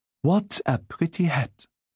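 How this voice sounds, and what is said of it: Soft French accent. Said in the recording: “in her soft French accent”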